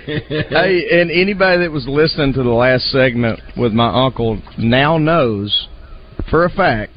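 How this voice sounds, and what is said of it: Strong country Southern accent. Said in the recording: “I'm not making up my accent to be more country”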